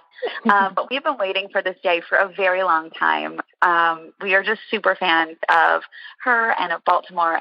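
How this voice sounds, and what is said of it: Scratchy voice. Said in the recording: “my voice is a bit scratchy”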